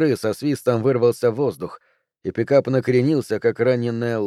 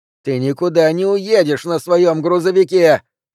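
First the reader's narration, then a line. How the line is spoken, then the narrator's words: Shouting into the distance. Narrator (Russian): закричала Ханна в сторону леса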